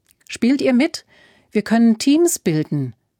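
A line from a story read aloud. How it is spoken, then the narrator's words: Called out. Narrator (German): rief Alfred ihnen zu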